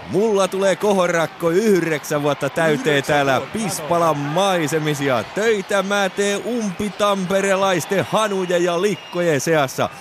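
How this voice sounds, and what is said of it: Rauma dialect of Finnish. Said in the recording (Finnish): “Eikä mun luonnon kaunis Rauman murteeni ole siltikään muuttunut miksikään”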